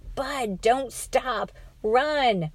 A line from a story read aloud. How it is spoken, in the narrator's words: Bugs screamed